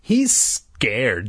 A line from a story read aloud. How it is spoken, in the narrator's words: Jay scoffed